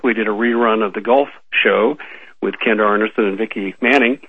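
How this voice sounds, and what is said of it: Sick, strained voice, occasional cough. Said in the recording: “you might be able to hear it in my voice. I'm a little worse for the wear ... fighting pneumonia ... you're going to hear it in my voice, an occasional cough here and there”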